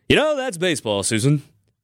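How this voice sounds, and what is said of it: Imitates a baseball announcer's voice. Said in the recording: “in the words of John Sterling of the New York Yankees ... just doing my best Yankees impression.”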